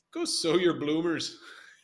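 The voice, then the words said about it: Weak attempt at Irish accent. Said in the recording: “You can do a better Irish accent than that, or a Scottish accent.”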